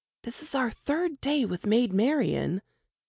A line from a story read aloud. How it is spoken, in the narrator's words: Jane whispered